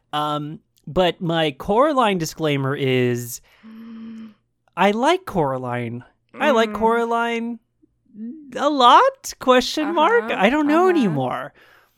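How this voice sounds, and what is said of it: Nasal, hoarse voice. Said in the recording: “I'm a little bit sick still. I've been sick for the past week, so if my voice sounds a little nasally, if my voice sounds a little hoarse, it's because I'm recovering from being sick.”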